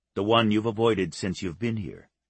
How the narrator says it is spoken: Gino said

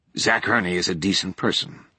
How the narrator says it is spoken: Tench said

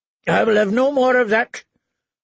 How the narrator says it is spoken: Lord Randall told his wife harshly

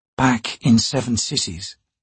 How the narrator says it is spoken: she said quietly

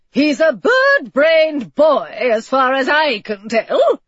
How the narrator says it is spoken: the old lady cackled

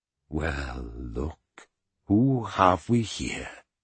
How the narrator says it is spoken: he said softly

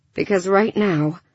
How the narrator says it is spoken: she sighed

